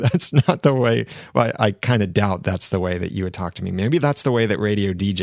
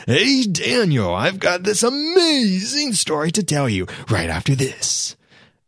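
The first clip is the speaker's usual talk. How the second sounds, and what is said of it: Exaggerated radio DJ voice. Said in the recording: “put on the radio DJ voice.”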